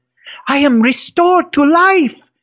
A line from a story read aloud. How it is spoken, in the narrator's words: he shouted